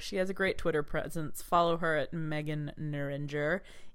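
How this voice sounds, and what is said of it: Smooth radio announcer voice. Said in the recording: “A very good radio voice,”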